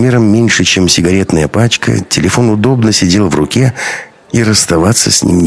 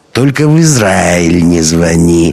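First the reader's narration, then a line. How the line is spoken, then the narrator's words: Tipsy, smiling. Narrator (Russian): расплылся в улыбке поддатый Гришин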